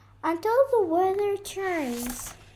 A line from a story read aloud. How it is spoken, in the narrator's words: chirped the bird